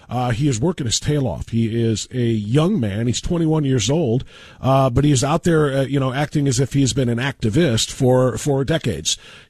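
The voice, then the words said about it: Slightly nasal, congested voice. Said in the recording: “I just have a little bit of a drippy nose, and I sound a little nasally.”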